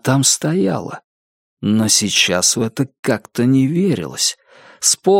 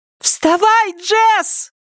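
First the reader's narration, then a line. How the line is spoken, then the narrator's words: Insistent shrill child's yell. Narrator (Russian): Это была малыш, которая снова орала своим настойчивым пронзительным голосом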